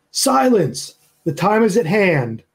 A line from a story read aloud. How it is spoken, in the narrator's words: And he'll shout